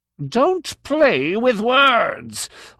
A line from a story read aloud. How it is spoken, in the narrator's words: Arneth roared